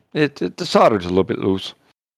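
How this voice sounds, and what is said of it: Put-on Irish accent. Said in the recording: “I'm just going to be Irish as I was.”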